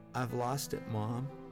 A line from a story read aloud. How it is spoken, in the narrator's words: timidly he said